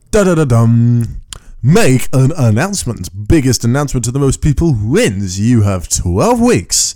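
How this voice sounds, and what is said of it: Announcer voice. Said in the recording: “That's my announcer voice.”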